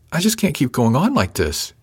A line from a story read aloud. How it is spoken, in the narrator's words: she said with a half sob